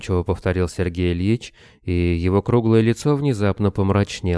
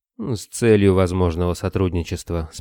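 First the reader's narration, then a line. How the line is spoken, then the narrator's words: Calm. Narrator (Russian): спокойно ответил Строев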